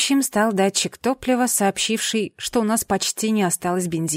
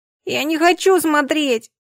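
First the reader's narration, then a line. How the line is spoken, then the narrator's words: Child whimpering. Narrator (Russian): захныкал младший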